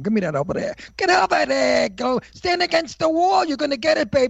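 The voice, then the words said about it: 1940s old-time Brooklyn accent. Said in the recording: “my accent was absolutely what is known as antique Brooklyn. Not Brooklyn accent of today. My accent was an accent of the 1940s”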